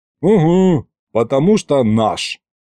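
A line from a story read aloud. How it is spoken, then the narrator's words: Grumbling. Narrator (Russian): проворчал я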